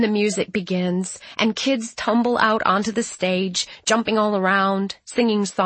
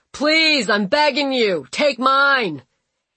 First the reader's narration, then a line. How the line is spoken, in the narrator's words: a man yells out from the audience